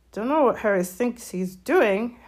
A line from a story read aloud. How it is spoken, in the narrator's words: Hagrid mumbled